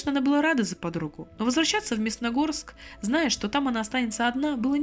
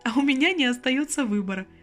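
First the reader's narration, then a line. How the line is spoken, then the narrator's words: Laughing. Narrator (Russian): Засмеялась Лена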